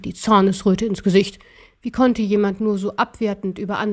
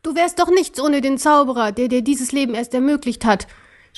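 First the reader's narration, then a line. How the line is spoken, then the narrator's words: Angry shouting. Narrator (German): schrie er den Kaiser an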